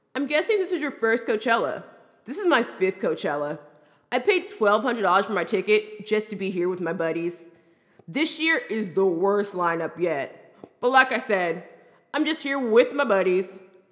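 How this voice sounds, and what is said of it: Frat bro voice. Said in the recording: “in a frat bro voice”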